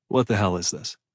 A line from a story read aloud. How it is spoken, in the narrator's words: Evan asked calmly